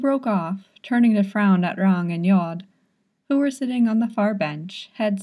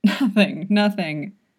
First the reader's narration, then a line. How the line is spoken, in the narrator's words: Yod wheezed